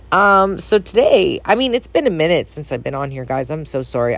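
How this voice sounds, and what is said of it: Groggy, very deep voice. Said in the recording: “I sound groggy, I apologize. Um, I have a very deep, deep, deep voice.”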